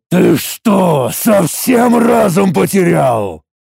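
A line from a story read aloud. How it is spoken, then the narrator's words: Through gritted teeth. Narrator (Russian): сквозь зубы произнес я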